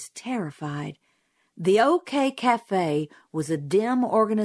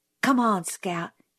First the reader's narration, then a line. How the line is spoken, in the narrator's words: he whispered